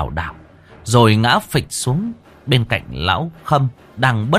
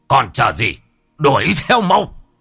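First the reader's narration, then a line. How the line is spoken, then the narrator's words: Shouting. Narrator (Vietnamese): Ông Bá Hùm quát lên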